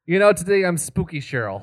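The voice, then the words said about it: Put-on spooky character voice. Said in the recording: “I won't do this voice for much longer. I just, you know, I like doing it.”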